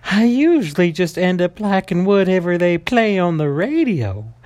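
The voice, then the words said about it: Exaggerated Southern Belle character voice. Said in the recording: “let's just do a very Southern Belle, almost a voice”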